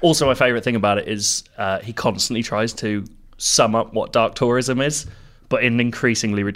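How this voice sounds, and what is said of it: Usual voice. Nothing is said of it.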